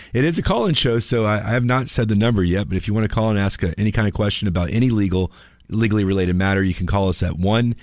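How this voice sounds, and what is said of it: Slightly raspy, under-the-weather voice. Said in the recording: “my voice is a little bit raspy. I'm feeling a little under the weather”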